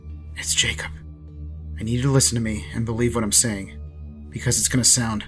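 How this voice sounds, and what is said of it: Whispered speech. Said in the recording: “I whisper.”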